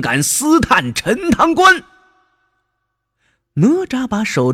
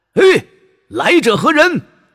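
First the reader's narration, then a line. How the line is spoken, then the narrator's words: Loud call from above. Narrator (Chinese): 城楼上有人高声的喊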